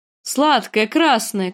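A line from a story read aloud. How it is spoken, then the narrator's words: Shouting in fluent Dothraki. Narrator (Russian): кричал он на беглом дотракийском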